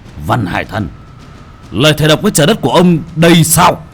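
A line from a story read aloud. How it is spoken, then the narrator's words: Stern voice. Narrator (Vietnamese): Bác cổ nghiêm giọng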